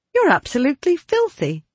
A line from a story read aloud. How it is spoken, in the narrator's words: exclaimed